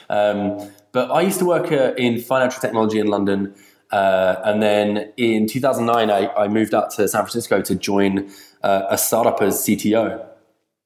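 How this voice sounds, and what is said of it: Non-Bay Area foreign accent. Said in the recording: “you can probably tell by my accent that I'm not from the Bay Area”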